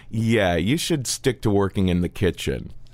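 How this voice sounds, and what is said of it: Thick Russian accent. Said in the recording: “in a thick Russian accent”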